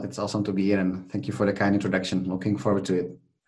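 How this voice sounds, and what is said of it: Czech accent in English. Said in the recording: “you've got an accent ... originally from the Czech Republic”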